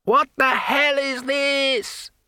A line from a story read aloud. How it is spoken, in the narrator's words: he shouted